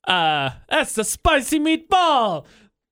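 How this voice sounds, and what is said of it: Put-on Italian accent. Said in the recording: “your Italian phrase. That's also my impression. I hope you were impressed by it. I wasn't.”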